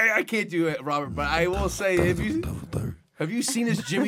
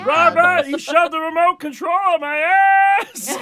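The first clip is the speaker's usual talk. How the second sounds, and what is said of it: Imitates another person's voice. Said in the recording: “That's pretty good. It's a good impression.”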